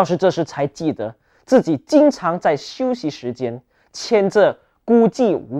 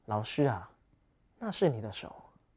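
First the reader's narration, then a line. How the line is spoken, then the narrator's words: Low reply. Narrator (Chinese): 他低声回答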